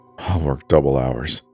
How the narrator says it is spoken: I mumbled, my face growing hot from my very apparent desperation

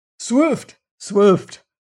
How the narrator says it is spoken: cried Otter again

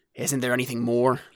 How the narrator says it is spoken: the soldier grumbled, looking distastefully

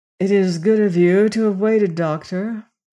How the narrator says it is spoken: he said in his huskily musical voice

